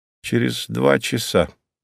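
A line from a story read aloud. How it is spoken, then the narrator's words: Muttered. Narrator (Russian): буркнул Немирович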